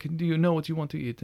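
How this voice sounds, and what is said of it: Put-on Italian accent. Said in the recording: “Did he have that accent? ... He did have the accent. It was way better than the one I'm doing right now. ... very Italian guy”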